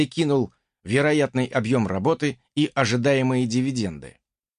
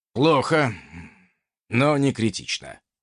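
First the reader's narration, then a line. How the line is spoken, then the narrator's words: Sighing. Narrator (Russian): вздохнул собеседник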